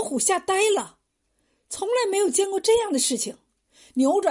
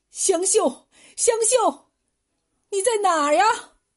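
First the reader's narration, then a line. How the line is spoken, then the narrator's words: Desperate repeated shouting. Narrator (Chinese): 郭秀才 嘴里还不停的叫喊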